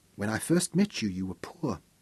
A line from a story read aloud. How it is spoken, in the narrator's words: Storm said quietly, with her eyes filled with the peace and wonder of it